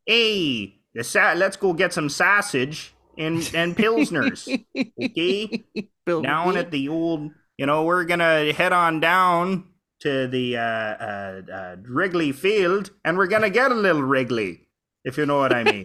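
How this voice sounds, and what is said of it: Exaggerated put-on Chicago accent. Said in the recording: “You should throw in the big Chicago ... accent”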